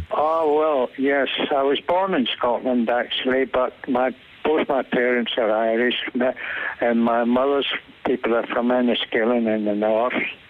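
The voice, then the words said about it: Scottish accent. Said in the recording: “I detect a Scottish accent there.”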